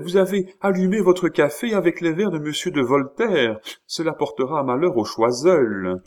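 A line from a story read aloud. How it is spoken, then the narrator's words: Exclaimed. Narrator (French): s'écria-t-elle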